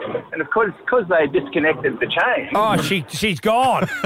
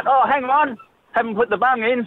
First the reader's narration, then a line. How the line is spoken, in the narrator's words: Justin yelled out